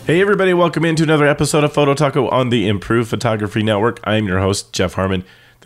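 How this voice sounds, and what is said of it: Sick-sounding voice. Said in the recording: “the plague still has a bit of a hold over me, as you can probably tell from my voice.”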